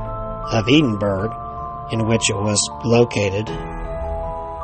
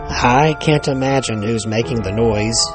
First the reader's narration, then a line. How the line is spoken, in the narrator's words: said blandly